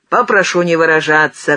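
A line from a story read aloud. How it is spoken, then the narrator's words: Shouting again. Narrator (Russian): крикнул опять Кулек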